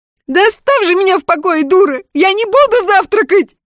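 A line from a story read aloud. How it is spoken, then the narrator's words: Screaming. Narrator (Russian): завопила Александрин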